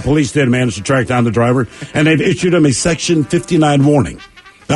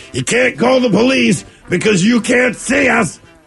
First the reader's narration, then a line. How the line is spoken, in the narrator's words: the male shouting